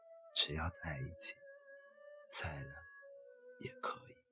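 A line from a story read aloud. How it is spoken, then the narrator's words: Resonant firm laugh. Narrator (Chinese): 男子……铿锵笑道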